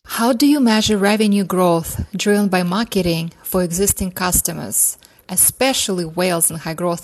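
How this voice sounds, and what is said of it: Russian accent. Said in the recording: “originally from Mother Russia, as you'll hear on her accent, her beautiful accent.”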